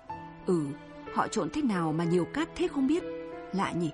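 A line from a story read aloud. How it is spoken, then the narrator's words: Dazed mutter. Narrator (Vietnamese): Sáu Nguyệt bần thần nói lẩm bẩm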